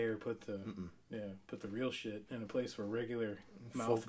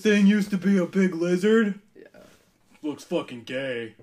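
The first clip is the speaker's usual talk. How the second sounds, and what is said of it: Dim-witted mouth-breather character voice. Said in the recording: “my impression of ... mouth breathing”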